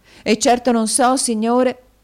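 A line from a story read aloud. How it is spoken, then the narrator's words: Woman's exclamation. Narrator (Italian): esclamò la signora Kenwigs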